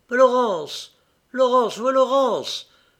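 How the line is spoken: Astonishing frantic shout. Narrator (French): cria d'une voix étonnante Aurélien, éperdu

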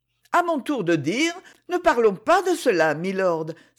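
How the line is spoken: Lively exclamation. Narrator (French): s'écria-t-elle vivement

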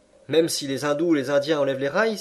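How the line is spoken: Exclaimed. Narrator (French): s'écria Andrew Stuart

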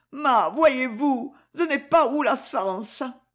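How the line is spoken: Choked with sobs, distraught. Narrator (French): Et la poitrine gonflée de sanglots, le visage bouleversé

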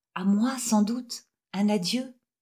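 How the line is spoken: Quiet, low voice. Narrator (French): dit-elle tout bas

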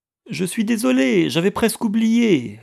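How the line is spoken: Woman calling from afar. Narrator (French): leur cria-t-elle depuis le hall

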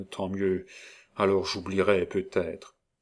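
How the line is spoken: Murmured. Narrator (French): murmura

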